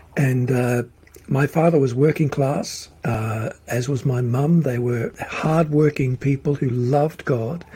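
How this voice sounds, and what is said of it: Australian accent. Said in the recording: “I was born in Melbourne, Australia. I still have the accent”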